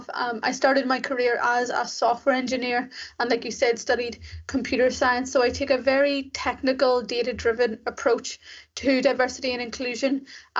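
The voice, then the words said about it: Irish accent. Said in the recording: “I was raised in Ireland, as you can probably tell from my accent.”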